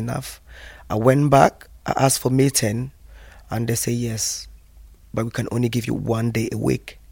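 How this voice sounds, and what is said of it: Very strong non-native accent. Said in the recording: “look at that woman with a very strong accent.”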